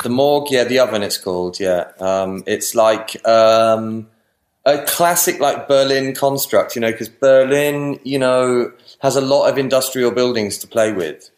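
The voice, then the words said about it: English accent. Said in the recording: “English accent of wonderfulness”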